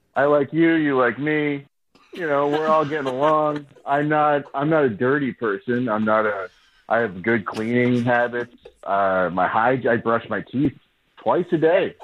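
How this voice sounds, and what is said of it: Nervous, awkward delivery. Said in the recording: “You sound really nervous.”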